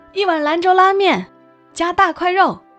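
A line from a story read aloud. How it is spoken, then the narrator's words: Boss calling out loudly. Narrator (Chinese): 老板必然朝后厨喊一声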